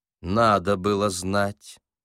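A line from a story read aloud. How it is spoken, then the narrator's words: Cold. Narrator (Russian): холодно сказал Корейка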